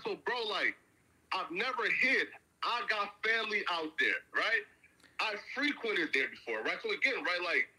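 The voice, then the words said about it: East Coast American accent. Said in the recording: “You got an East Coast accent”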